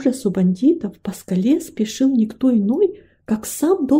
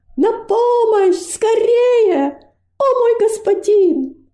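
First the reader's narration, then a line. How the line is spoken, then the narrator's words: Screaming with all strength. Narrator (Russian): Робость подняла голову к кажущемуся пустым небу и изо всех сил закричала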